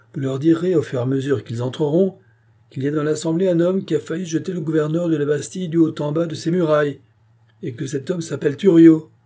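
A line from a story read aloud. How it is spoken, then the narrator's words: Shouted. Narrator (French): cria Thuriot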